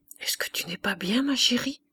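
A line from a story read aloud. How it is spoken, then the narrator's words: Low voice. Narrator (French): demanda-t-il à mi-voix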